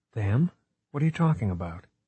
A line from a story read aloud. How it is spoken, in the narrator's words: Smithback sighed